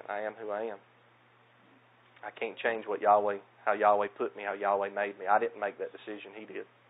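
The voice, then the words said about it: Southern US accent. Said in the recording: “I had no idea that you had a southern accent ... I'm thankful for my southern accent.”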